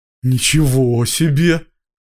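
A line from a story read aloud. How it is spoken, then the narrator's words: Breathed out. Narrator (Russian): выдохнул он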